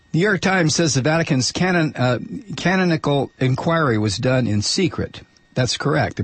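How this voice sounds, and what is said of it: Strained, failing voice. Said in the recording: “I'm about to lose my voice.”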